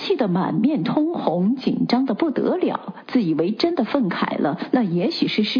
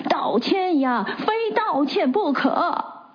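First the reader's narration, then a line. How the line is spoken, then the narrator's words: Noisy crowd shouting. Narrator (Chinese): 群众闹哄起来，有的虚着，有的嚷着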